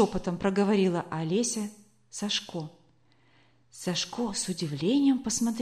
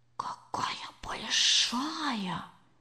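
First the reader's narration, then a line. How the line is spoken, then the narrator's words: Whisper. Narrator (Russian): сказал он тоже шепотом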